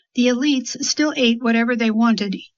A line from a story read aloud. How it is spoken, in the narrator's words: Yumi said